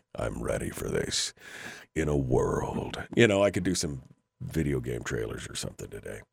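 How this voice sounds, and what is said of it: Unusually deep voice. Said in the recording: “I could do some really deep voice stuff today”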